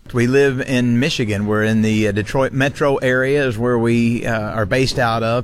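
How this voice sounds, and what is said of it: Southern US accent. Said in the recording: “You can probably tell by my accent, that's not where I'm originally from. Originally from a place called Maggie Valley, North Carolina. So I grew up in the South”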